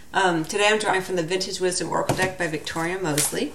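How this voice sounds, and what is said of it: Slightly congested voice from a cold. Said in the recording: “I have a little bit of a cold”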